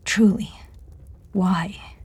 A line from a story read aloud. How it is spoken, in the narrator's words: Amanda asked softly